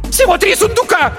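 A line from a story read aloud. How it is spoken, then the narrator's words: Shriek. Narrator (Russian): взвизгнула Беатриса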